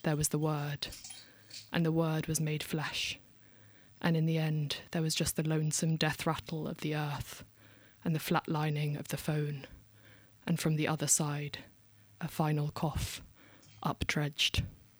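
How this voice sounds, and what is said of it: Standard RP English accent. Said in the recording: “Is that a London accent? ... just a your base standard RP middle class ... Peckham, I guess ... Posh Peckham”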